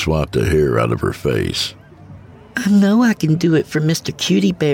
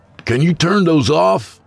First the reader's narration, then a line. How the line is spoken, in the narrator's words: he called out